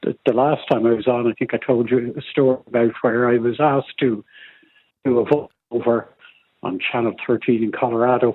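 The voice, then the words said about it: Irish accent. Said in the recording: “this is an Irish accent. I never lost an accent.”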